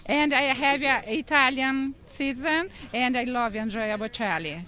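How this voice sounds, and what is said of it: Brazilian accent in English. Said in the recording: “I wasn't expecting this beautiful accent out of you. You said you're from Brazil.”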